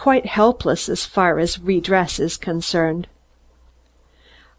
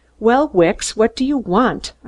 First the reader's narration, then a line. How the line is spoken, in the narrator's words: I snapped